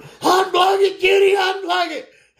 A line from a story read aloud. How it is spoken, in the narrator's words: Daddy's hollering